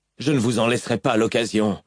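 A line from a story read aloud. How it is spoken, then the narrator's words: Growled. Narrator (French): gronda Kaladin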